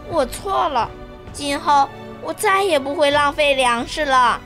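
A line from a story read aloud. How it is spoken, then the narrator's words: Quiet, remorseful. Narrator (Chinese): 彤彤小声地说道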